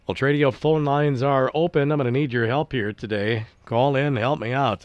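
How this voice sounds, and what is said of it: Slightly raspy, congested voice. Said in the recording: “I got a little raspy voice here this morning ... The humidity and all of the steam the last couple of days apparently took square aim at my sinuses”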